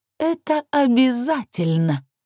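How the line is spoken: Malicious laughter. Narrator (Russian): зло расхохоталась Лилит

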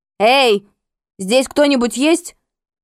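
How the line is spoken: Shout. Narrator (Russian): крикнула я

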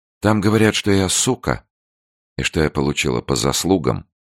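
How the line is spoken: Even, level voice. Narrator (Russian): продолжала Ирина ровным голосом

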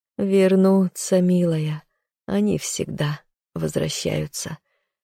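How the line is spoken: Hoarse mutter. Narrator (Russian): хрипло пробормотала

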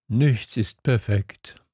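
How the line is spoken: Fox sighing. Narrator (German): seufzte der Fuchs

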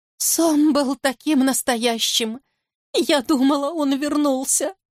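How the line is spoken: Sobbing. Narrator (Russian): зарыдала

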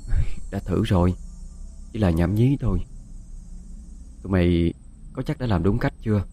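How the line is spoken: Soft voice. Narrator (Vietnamese): Quanh khẽ nói

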